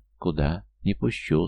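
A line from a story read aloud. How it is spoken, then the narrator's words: Sleepy mumble. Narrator (Russian): сонно промотала девчонка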